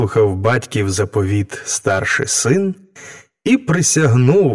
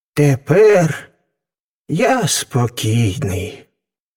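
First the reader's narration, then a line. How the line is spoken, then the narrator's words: Father sighing with relief. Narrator (Ukrainian): зітхнув із полегкістю батько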